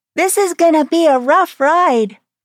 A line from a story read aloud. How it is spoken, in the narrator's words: Mimi hollered